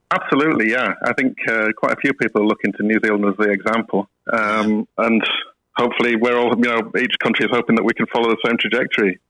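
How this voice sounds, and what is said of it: Slight Yorkshire accent. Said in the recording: “it's not an Aussie accent I detect there... I don't have the Australian accent, regrettably, but yeah, I grew up in Leeds, so there's still a bit of a Yorkshire twang there... it still sounds very much the Yorkshire lad that I was and am.”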